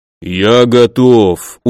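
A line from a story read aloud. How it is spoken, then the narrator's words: Confident deep voice. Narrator (Russian): уверенно пробасил Думиса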